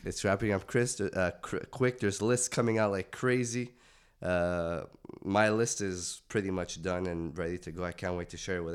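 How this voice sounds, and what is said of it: Raspy, hoarse sick voice. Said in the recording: “my raspy Jadakiss sick voice this week ... I am super sick”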